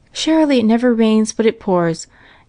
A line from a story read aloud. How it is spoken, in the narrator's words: exclaimed Mrs